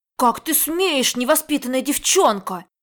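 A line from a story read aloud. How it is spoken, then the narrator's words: Angry child's shout. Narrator (Russian): Сердито крикнул маленький Пажик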